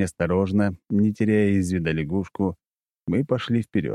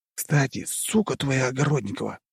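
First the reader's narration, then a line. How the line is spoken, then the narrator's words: Hissed. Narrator (Russian): прошипел Нарышкин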